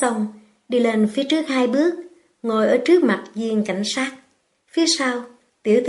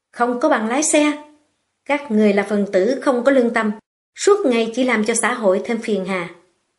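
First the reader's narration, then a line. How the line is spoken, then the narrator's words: Angry speech. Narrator (Vietnamese): Viên cảnh sát tức giận nói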